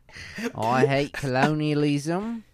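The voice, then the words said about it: Grating Hannah Gadsby impression. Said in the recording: “That's Hannah Gadsby ... You do a good her ... it just sounds like like just grating. It's the worst accent ever.”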